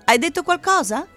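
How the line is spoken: Mother shouting from kitchen. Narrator (Italian): gridò sua mamma dalla cucina

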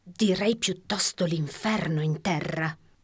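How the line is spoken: Murmured. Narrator (Italian): mormorò la signora Priddle

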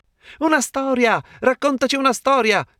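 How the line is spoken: Children exclaiming together. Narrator (Italian): esclamarono infine i piccini

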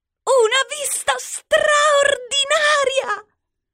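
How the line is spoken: Exclaimed. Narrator (Italian): esclamò cugina Formaggina

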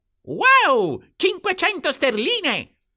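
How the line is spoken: Exclaimed. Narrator (Italian): esclamò Warren

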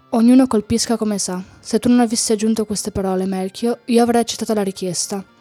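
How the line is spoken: Low voice. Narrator (Italian): Folo, a voce altrettanto bassa, disse allora

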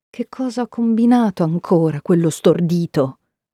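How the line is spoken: Worried, combative muttering. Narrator (Italian): borbotta mamma con il suo solito tono tra il preoccupato e il battagliero

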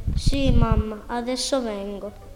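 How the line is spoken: Sad voice. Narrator (Italian): risponde con una voce triste

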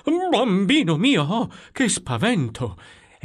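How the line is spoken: Frightened exclamation. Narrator (Italian): esclamò portando una mano al cuore

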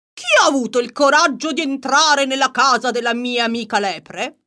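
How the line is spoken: Shout, leopard. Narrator (Italian): il leopardo gridò

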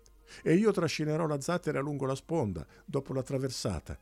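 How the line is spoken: Enthusiastic exclamation. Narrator (Italian): esclamò Irine, entusiasta di quell'idea

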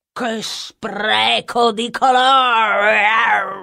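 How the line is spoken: Roar. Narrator (Italian): ruggì la tigre

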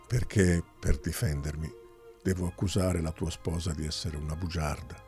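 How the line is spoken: Low voice. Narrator (Italian): disse Folo a voce bassa

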